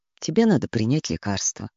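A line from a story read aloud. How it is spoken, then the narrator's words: Quiet. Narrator (Russian): тихо сказал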